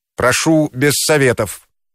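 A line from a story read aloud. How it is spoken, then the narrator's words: Angry sharp interruption. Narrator (Russian): сердито оборвал ее учитель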